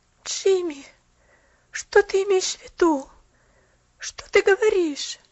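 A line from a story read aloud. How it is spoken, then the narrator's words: Pitiful pleading. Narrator (Russian): Жалостно взмолилась она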